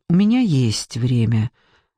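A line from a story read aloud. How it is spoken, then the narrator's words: Calm. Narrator (Russian): сказала Маша спокойно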